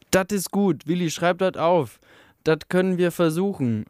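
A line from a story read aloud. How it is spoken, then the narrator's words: Calling out. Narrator (German): rief eine Stimme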